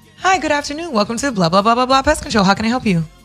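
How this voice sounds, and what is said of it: Polished customer-service phone voice. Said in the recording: “You got a nice-ass phone voice.”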